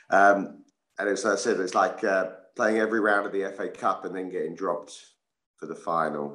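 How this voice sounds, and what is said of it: Slightly rough, worn voice. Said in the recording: “my voice is a little bit dodgy this morning”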